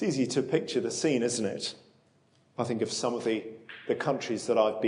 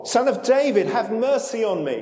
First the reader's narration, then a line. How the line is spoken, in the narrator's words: he shouted all the more